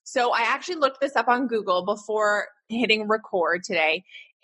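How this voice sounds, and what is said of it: Canadian English accent. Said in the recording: “I'm Canadian, so I say niche, not niche ... get in tune with my Canadian accent”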